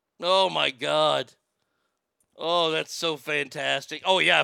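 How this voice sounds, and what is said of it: Usual voice. Nothing is said of it.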